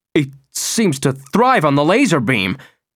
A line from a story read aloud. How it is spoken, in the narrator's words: The TV newscaster, for one time in his life, disconcerted, blurted out